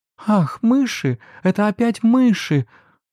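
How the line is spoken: Frightened cry. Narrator (Russian): с испугом вскрикнула Мари

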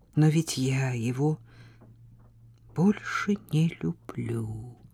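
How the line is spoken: Whispered. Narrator (Russian): прошептала она

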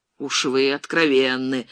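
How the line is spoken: Gloomy, irritated. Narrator (Russian): мрачно и с раздражением сказал капитан

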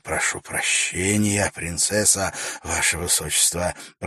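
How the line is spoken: Mumbled. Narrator (Russian): пробормотал Вакир

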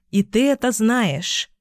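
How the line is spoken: Forced calm. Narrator (Russian): как можно более спокойно проговорила я

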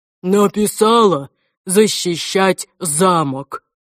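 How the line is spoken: Growl through teeth. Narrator (Russian): прорычал он сквозь зубы

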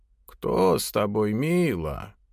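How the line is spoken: Hoarse, old, croaking voice. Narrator (Russian): Голос, звучавший из кухни, был хриплым, старым и каким-то каркающим

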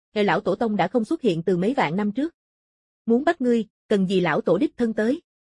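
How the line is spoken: Calm cold reply. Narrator (Vietnamese): Kim Dao trăm trượng không hề tức giận, lạnh nhạt đáp lại

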